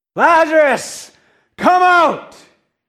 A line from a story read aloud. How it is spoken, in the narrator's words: calls out to him in a loud voice